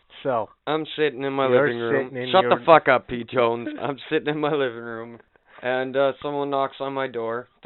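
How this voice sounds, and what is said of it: Damaged, rough-sounding voice. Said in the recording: “My voice is all fucked up. ... Your voice is all fucked up.”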